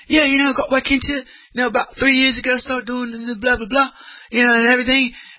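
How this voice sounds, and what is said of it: Imitated New Zealand accent. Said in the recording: “His New Zealander accent.”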